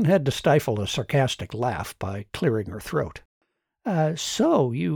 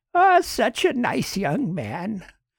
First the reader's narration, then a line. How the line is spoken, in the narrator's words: The old woman cooed